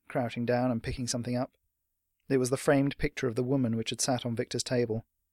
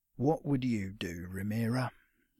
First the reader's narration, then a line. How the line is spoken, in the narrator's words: he murmured, almost too quiet for Tripp to hear